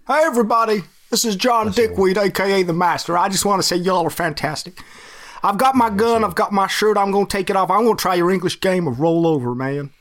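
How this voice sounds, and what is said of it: Put-on generic American accent. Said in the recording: “I like the American accent. Just the one accent they all do. ... The one standard.”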